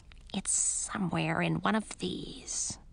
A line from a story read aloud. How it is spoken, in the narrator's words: Vonnebe muttered to herself